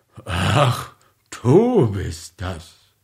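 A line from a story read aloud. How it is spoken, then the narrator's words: Displeased murmur. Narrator (German): murmelte er mit unzufriedener Stimme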